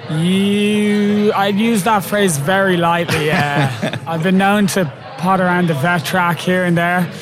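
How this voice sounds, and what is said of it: Irish accent. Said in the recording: “from Ireland ... dodgy accent”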